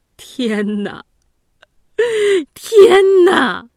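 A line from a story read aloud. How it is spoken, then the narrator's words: Wailing. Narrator (Chinese): 吉子……大哭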